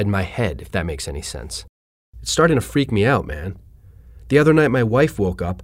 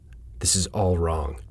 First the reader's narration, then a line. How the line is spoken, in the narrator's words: whispered